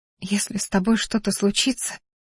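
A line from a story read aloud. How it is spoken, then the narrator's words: Tearful whisper. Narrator (Russian): шепнула я, чувствуя, как по щекам бегут слезы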